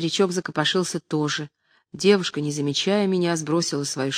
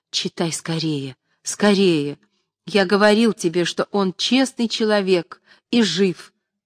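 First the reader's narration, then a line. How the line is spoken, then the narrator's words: Joyful. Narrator (Russian): прибавил радостно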